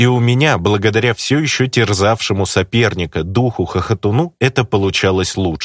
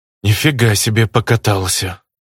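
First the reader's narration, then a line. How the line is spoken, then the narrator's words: Snort. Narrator (Russian): я хмыкнул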